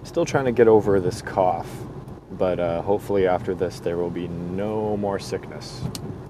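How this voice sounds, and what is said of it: Fuzzy, sick-sounding voice. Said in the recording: “my voice is still a little fuzzy”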